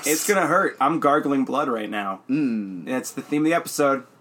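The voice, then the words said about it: Hoarse, blown-out voice. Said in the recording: “You blew out your voice finishing your album the night before last night. ... You do sound a little bit bony.”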